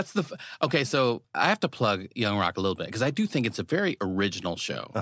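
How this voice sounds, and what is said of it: Usual voice. Nothing is said of it.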